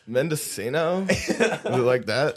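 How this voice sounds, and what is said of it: Put-on California accent. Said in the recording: “Can you say it with the accent? ... More like a California accent. ... that's a good one.”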